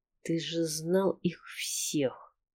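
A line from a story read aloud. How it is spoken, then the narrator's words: Quiet, through clenched teeth. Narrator (Russian): Тихо, сквозь зубы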